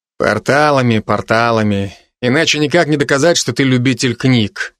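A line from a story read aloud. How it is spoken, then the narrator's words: Amused snort. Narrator (Russian): хмыкнул Алви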